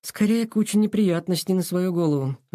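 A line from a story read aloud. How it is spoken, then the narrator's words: Sighing, smiling. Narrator (Russian): вздохнул Сашка, но не сдержал улыбки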